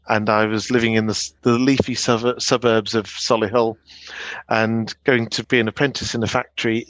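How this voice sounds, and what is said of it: Fairly southern English accent. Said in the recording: “despite living in the Midlands from the age of 14, I've got a fairly southern accent.”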